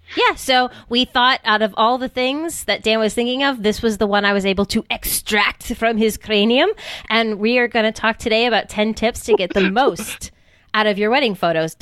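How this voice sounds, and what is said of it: Put-on evil doctor accent. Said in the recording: “Don't laugh at my accents. ... that was an Arnold accent, I think. ... I was going for more like evil doctor, like evil. ... definitely Arnold Schwarzenegger.”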